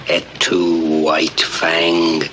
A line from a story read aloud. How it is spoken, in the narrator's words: this very noble-looking Dalmatian whips his toga around himself thusly and snarls